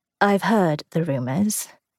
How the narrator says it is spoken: he said evenly

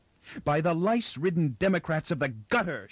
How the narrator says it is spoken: shouted Inber back at him

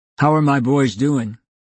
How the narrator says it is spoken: Alan asked

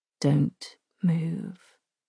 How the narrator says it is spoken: he says softly

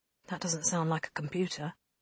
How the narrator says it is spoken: Lane murmured

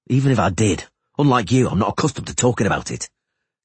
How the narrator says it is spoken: Geralt said sharply

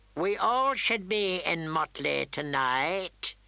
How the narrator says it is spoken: he said gloomily

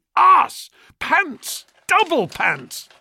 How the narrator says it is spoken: Michael, yelling furiously

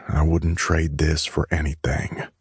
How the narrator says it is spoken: I said quietly

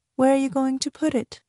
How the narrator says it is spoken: She asked him dreamily

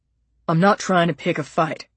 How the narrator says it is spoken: he mumbled

